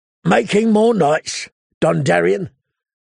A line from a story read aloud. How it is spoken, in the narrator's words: the intruder said in a growl